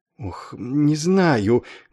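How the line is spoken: Trembling plaintive half-whisper. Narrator (Russian): дрожащим полушепотом жалобно отозвался капеллан

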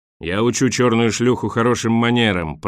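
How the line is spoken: Roar. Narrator (Russian): проревел Борис

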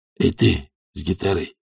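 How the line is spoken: Hoarse. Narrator (Russian): хрипло сказал Бадди

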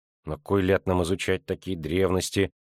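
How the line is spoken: Grumbling. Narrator (Russian): забурчала Абонда

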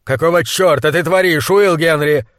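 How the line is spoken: Furious shouting. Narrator (Russian): заорал монстролог

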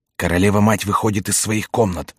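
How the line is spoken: Frightened whisper. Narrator (Russian): прошептал испуганный голос

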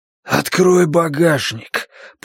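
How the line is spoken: Hoarse rasp. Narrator (Russian): прохрипел он

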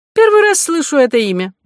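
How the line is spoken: Exclaiming. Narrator (Russian): воскликнул переводчик

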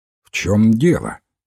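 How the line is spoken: Fairly stern question. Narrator (Russian): довольно строго спросил Уилфред Боэн

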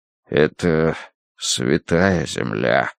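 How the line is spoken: Muffled, hollow voice. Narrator (Russian): проговорил он глухо

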